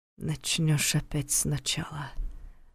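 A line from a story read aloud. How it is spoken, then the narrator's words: Whisper. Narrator (Russian): Войтых сам прошептал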